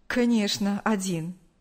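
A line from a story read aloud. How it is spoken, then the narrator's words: Smirking. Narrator (Russian): усмехнулся Павел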